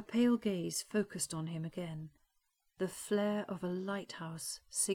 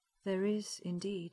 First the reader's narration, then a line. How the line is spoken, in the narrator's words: said gravely